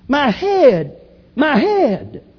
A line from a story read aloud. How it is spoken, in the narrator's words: he was out in the field and cried out